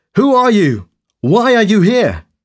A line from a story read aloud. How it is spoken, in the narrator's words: he shouted to them